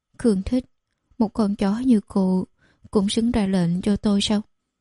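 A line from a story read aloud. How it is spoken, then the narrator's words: Trembling voice. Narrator (Vietnamese): Giọng nói của Khương Thích đều đang run rẩy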